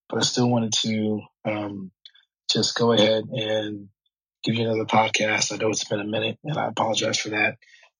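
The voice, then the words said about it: Voice sounds unwell, not normal. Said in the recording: “Been a little under the weather lately, so my voice is not quite what it normally is.”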